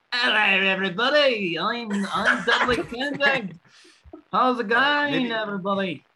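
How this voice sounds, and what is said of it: Liverpool accent. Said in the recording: “You sound like you're someone from ... from Liverpool.”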